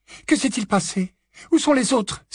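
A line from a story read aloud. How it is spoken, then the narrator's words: Exclaim. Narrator (French): s'écria Mrs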